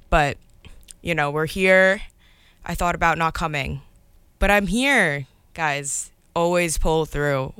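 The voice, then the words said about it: Slightly hoarse, partly lost voice. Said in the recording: “I lost my voice a little bit last night... it's like shouting the entire night”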